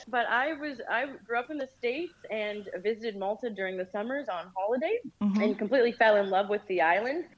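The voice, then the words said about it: American accent. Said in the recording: “I have an American accent, not the most beautiful”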